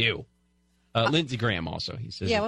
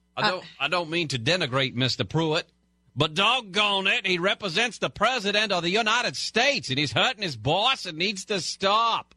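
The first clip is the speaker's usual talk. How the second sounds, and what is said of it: Louisiana-Massachusetts accent. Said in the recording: “It was a Louisiana-Massachusetts accent. ... Very good.”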